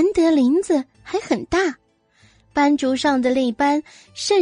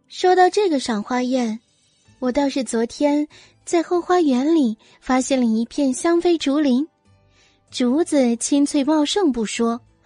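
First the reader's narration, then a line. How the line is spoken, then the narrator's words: Casual, lightly smiling. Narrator (Chinese): 深吸了一口气，唇角勾出淡淡的笑，装作不经意的说道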